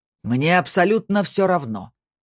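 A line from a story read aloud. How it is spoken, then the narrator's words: Growl. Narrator (Russian): прорычал Снейдер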